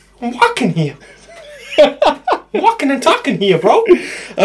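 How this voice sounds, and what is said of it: Boston-accented impression of another person. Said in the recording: “It's Mark Wahlberg! ... I wouldn't mock a man from Boston.”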